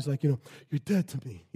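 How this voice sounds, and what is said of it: Poor Godfather character impression. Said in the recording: “the Godfather... That was a terrible impersonation.”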